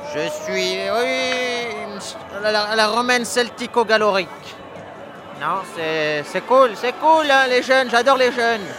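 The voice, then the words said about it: Noticeable regional French accent. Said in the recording (French): “C'est un accent, tu viens d'où?”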